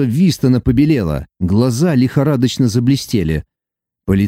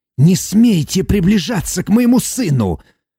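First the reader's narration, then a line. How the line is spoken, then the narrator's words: Hiss. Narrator (Russian): прошипел доктор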